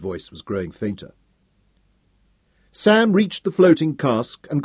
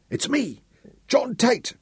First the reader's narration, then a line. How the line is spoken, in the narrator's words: the swimmer blurted out, coughing up seawater